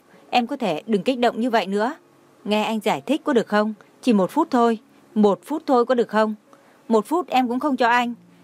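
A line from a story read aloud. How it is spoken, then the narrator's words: Sudden angry shout. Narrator (Vietnamese): Trang Hạo Nhiên đột nhiên tức giận kêu to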